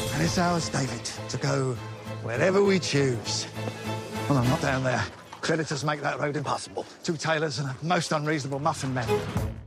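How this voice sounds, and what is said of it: Slightly approximate Cockney accent. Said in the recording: “with a slightly approximate Cockney accent”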